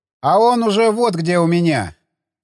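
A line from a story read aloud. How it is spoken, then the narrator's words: Growled. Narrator (Russian): прорычал тот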